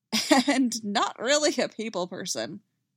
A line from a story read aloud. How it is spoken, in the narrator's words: laughs